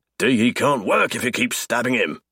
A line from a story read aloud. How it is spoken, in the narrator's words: he snaps